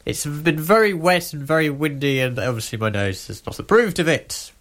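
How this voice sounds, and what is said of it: Stuffy, congested voice. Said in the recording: “if it sounds like I have a cold, it's because I do.”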